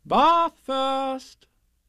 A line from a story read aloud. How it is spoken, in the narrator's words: said Kanga in a cheerful voice